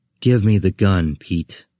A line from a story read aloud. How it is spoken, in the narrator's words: I said